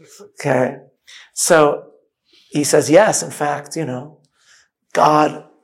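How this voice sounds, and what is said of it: Usual voice. Nothing is said of it.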